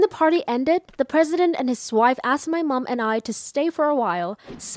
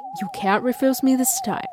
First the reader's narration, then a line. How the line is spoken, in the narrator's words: with a triumphant smile and whispered to me